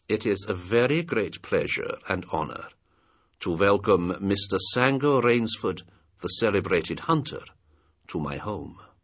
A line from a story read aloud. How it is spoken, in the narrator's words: In a cultivated voice marked by a slight accent that gave it added precision and deliberateness, he said